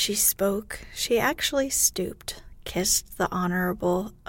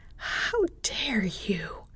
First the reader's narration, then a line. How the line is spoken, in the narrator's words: gasped